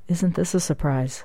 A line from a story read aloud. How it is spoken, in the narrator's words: She leaned closer to the senator and whispered